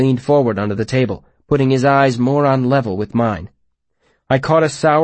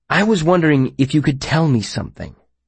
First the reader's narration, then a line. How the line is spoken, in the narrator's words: I said in my best conspiratorial tone